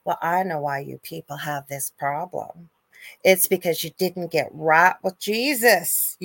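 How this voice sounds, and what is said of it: Deliberately bad put-on accent. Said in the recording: “please forgive my bad accent, I'm just assuming it might sound like this”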